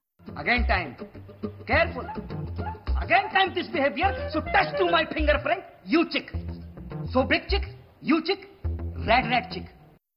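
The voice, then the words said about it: Indian or Pakistani accent. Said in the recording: “That's Indian, is it not? ... It's either Indian or Pakistan.”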